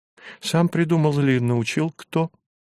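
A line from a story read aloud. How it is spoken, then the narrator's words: Trembling voice question. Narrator (Russian): дрогнувшим голосом спросила Зинаида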